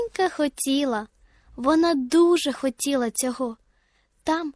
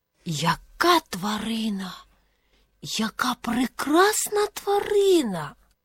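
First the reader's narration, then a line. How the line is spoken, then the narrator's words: Whisper. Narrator (Ukrainian): прошепотіла сова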